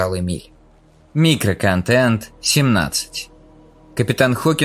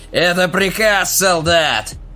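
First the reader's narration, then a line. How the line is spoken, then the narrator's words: Terrified screaming. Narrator (Russian): Манос вопил от страха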